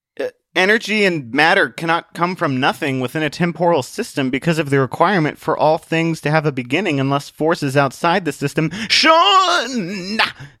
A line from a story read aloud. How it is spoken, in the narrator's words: Atheist shouted